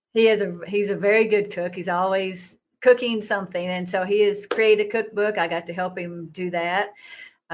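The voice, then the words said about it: Southern US twang. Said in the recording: “That's where the Southern twang comes from.”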